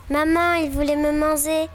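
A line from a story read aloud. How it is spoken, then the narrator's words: Chick crying out. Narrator (French): cria le poussin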